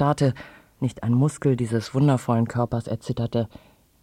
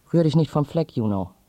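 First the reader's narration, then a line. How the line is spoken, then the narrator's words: Sharp voice. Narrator (German): sagte mit scharfer Stimme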